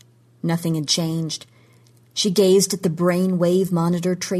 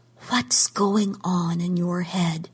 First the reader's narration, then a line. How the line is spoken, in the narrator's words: she whispered